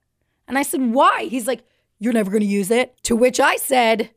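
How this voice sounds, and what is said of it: Usual voice. Nothing is said of it.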